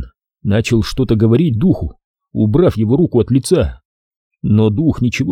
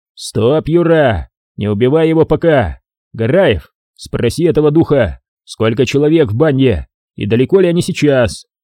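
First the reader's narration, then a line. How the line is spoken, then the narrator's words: Shouting. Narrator (Russian): Ротный крикнул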